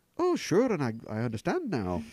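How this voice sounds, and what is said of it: Poor put-on Irish accent. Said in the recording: “That's my Irish accent. Bad.”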